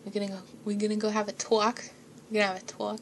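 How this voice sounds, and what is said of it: Boston accent, Mark Wahlberg impression. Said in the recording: “it sounds more like a Boston accent, like Mark Wahlberg”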